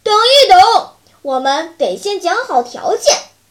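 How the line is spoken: Bears shouting together. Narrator (Chinese): 底下的熊一起喊

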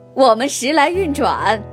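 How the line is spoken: Hearty laughter. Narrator (Chinese): 阿里巴巴哈哈大笑

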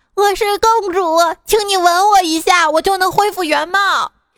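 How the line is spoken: Loud shout. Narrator (Chinese): 这牛公主大喊道

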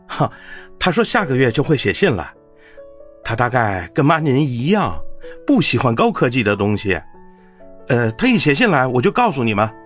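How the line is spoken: Reassuring, smiling. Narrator (Chinese): 见母亲有所担忧，便笑道

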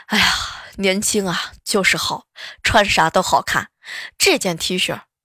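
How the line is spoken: Sighing. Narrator (Chinese): 准老丈人 就叹气

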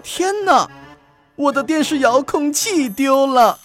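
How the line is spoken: Shouting. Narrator (Chinese): 他大叫起来

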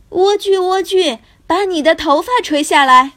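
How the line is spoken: Calling, imitating a witch. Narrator (Chinese): 王子也学着女巫的样子……喊道

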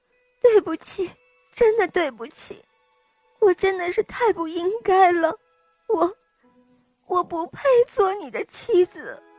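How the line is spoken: Sobbing, weeping. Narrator (Chinese): 公主痛哭流涕，抽泣着对国王说

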